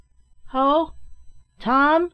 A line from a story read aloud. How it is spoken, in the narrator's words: he shouted on entering